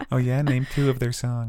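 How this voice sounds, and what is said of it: Mocking mean-guy character voice. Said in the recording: “That was my impression of a mean guy. ... That was me just doing like a mean guy thing.”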